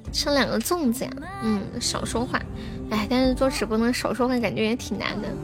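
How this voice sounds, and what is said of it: Hoarse, slow and quiet voice. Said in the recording (Chinese): “嗓子哑了，我现在说话的时候喉咙都很痛， ... 所以我试着就说慢一点，说小声一点”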